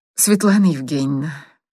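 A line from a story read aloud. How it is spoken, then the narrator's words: Sigh. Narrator (Russian): Миша вздохнул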